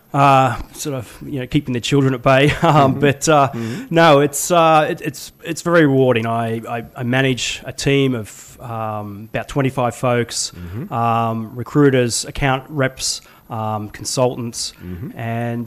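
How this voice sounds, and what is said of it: Australian accent. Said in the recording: “you have a funny accent... I'm actually from Sydney, Australia.”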